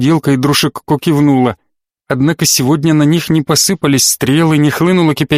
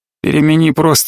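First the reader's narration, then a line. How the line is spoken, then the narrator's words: Clear, not mumbled. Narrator (Russian): не пробормотал Батори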